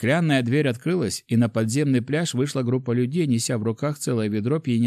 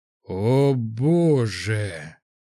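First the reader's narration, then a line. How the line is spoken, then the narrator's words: Gasped exhale. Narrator (Russian): выдохнул глава группы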